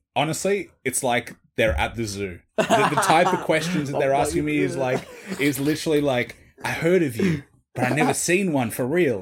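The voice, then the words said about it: Australian accent. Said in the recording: “They hear my voice, and I drop that I'm Australian ... They probably love the Aussie accent.”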